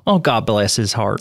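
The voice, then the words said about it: Put-on Southern accent. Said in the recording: “You have to say it in a Southern accent.”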